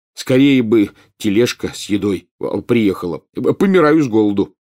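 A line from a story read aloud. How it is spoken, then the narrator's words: Exclaiming. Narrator (Russian): воскликнул Рон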